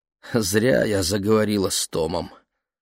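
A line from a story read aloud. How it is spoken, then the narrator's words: Mother sighing. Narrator (Russian): вздохнула мама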